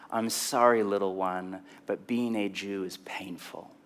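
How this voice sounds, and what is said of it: Tender, gentle voice. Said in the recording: “in a tender voice”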